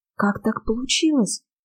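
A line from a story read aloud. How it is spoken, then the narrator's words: Shocked whisper. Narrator (Russian): потрясенно прошептала я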